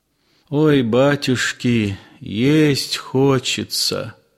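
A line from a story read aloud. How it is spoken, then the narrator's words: Weak, dejected peasant voice. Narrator (Russian): сказал упалым голосом один мужик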